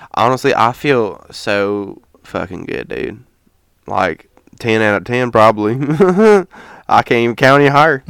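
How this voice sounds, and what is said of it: Put-on country accent. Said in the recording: “it's the country accent”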